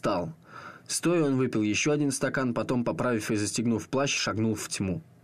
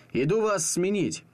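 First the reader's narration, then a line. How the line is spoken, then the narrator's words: Shouting. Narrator (Russian): крикнул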